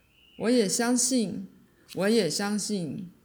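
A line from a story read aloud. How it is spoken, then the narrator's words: Eager loud shout. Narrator (Chinese): 我热情的高声喊道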